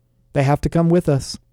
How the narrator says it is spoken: Isaiah admitted, sighing deeply

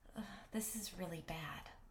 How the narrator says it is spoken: I breathed

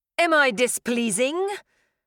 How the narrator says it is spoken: Kadir said, his voice sharp

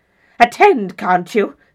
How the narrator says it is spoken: said Prior savagely

